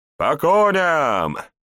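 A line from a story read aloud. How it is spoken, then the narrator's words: Shout. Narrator (Russian): крикнул Ван Эйк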